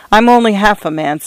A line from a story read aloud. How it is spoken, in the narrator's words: said McNair